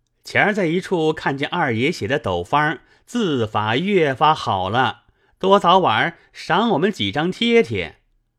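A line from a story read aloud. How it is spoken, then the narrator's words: Group, laughing. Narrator (Chinese): 众人都笑说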